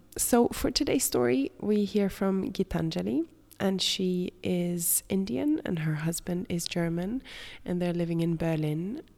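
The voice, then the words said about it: Raspy voice with a cold. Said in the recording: “I've come home with a bit of a cold, and my pollen allergies have started ... hear that in my voice today ... this raspy voice of mine”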